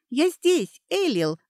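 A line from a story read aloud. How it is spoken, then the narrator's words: Joyful exclamation. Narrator (Russian): радостно воскликнула Кейтрия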